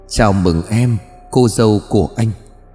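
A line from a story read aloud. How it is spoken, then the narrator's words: Soft whisper. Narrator (Vietnamese): Trần có tiếng nói khẽ thì thầm bên tai của Hoa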